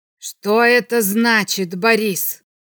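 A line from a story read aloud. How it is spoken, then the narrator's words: Icy question. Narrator (Russian): спросил он ледяным тоном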